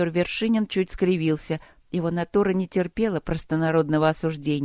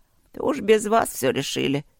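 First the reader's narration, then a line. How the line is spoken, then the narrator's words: Creaky voice. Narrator (Russian): проскрипела Дорофея Ивановна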